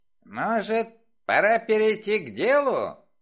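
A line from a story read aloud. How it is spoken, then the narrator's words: Grumbled. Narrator (Russian): проворчал Крэмер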